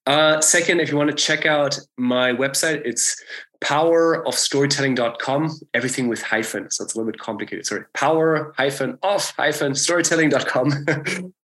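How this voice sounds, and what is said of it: German accent. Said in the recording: “I'm German. This is why it's such a weird accent.”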